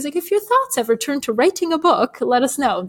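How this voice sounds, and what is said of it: Imitated British accent. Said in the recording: “That's not a British accent. ... That was pretty good for a Bulgarian American. ... Bulgarian American British accent. Not great.”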